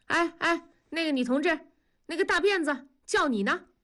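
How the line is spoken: Calling out. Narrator (Chinese): 同志 喊住那个女孩

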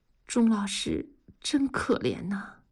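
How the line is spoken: Murmuring. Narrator (Chinese): 文丽看着钟老师的背影，喃喃地说

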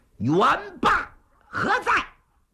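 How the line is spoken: Loud shout. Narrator (Chinese): 李渊知道打不过人家 高声喊喝

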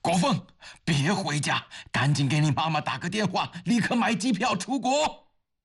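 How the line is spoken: Loud pained shout. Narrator (Chinese): 刘峰顾不得身体已经被撞得剧痛，他大声地向儿子喊着

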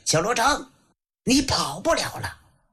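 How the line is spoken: Loud roar. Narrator (Chinese): 大吼一声

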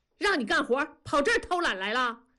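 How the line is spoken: Shouting. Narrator (Chinese): 庄嫂吼了一声

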